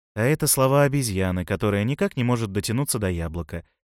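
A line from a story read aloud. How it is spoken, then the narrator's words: Plain. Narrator (Russian): сказал Мышелов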